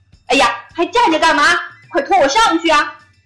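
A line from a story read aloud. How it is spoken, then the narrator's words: Shouting. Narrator (Chinese): 对着伙伴吼起来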